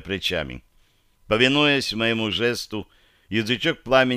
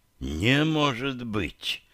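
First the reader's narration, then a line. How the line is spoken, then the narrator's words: Excited breathless exhale. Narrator (Russian): выдохнул тот, блестящими от возбуждения глазами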